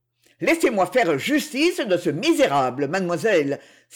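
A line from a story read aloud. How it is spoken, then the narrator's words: Furious exclamation. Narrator (French): s'écria Don Miguel, qui semblait en proie à une irritation effrayante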